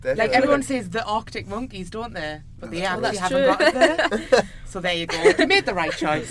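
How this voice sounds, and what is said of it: Northern English accent. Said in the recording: “I'm not even the most northern person. I get grief constantly for my accent ... I've got a lovely accent”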